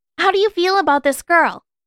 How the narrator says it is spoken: She blurted

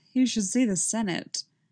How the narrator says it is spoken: she replied with a sigh

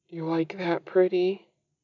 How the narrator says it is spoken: He gasps

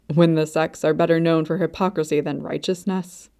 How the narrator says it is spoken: Luo Bingha scoffed softly

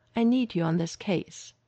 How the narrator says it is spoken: she said, her tone leaving no room for argument

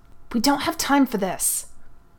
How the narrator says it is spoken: Nureyev hissed

